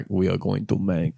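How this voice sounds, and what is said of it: Poor imitation Russian accent, Borat-like. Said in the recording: “That's not a good Russian accent. ... What was that Borat?”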